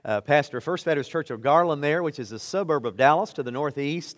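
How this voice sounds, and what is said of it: Texas accent. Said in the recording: “You probably tell the Texas accent.”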